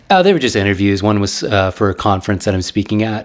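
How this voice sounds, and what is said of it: Slightly raw, worn voice. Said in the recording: “my voice is a little raw.”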